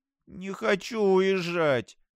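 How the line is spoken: Whimpering. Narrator (Russian): захныкала Пиви

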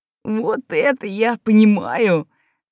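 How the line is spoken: Barely audible breath. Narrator (Russian): на грани слышимости выдохнул Эгри

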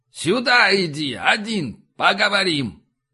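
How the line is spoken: Offended shouted reply. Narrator (Russian): обидчиво и прокричал в ответ

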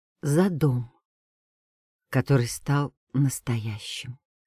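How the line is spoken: Quiet. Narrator (Russian): тихо сказал Иван

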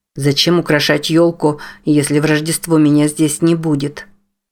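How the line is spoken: Father grumbling. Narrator (Russian): ворчал отец

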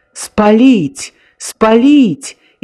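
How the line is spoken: Hysterical shouting. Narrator (Belarusian): істэрычна крычаў візанер

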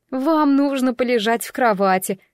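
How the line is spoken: Said with nervous giggle. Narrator (Russian): сказала Бриджит и нервно хихикнула

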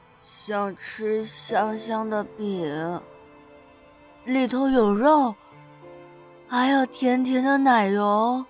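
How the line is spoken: Mumbling. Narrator (Chinese): 他嘟囔

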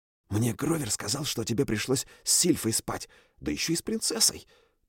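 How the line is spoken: Whispered. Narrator (Russian): прошептал Майло

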